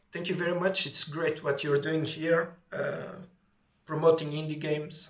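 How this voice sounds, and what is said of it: Thick foreign accent. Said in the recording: “my thick accent”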